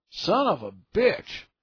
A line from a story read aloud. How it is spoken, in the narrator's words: Meyer cried out in pain